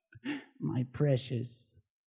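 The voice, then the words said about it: Creepy character voice. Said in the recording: “In a good, creepy voice.”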